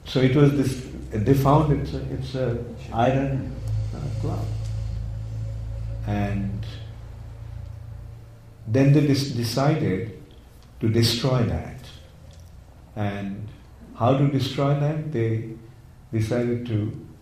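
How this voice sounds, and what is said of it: Indian English accent. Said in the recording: “I have my Indian accent.”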